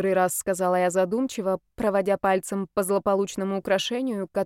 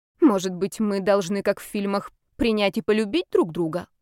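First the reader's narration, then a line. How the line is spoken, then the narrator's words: Snort. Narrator (Russian): хмыкнул Ярослав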